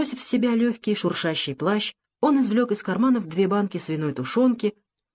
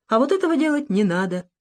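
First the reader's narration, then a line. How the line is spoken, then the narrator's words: Cheerful, interrupting. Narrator (Russian): весело остановил ее ночной гость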